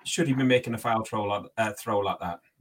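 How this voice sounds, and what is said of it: Irish accent slipping through. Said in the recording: “My Irish accent came out there for a second.”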